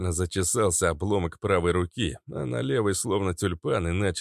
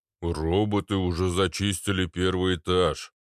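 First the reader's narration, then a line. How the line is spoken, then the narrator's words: Droning boom. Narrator (Russian): прогудел Арнольд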